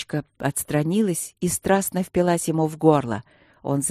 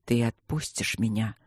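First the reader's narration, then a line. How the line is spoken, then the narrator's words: Quiet question. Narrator (Russian): спросил он тихо у змеи-стражницы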